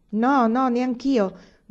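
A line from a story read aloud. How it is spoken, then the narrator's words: Several voices shouting. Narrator (Italian): gridarono parecchie voci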